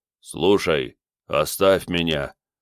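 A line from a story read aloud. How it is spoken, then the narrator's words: Deep voice in ear. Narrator (Russian): пробасил на ухо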